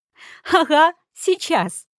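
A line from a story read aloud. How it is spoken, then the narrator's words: Laughing reply. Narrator (Russian): засмеялась в ответ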